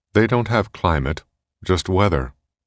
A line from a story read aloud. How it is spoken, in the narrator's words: Armitage said